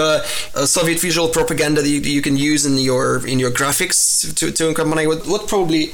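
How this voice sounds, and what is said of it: Usual voice. Nothing is said of it.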